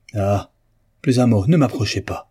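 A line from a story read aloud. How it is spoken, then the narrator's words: Distraught exclamation. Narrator (French): s'écria Ribert éperdu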